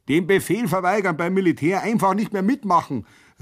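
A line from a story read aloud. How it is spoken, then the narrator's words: Somewhat uncertain call. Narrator (German): rief ich noch etwas unsicher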